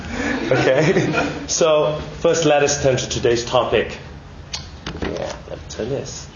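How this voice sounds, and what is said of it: Malaysian accent. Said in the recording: “the Malaysian accent breaking out”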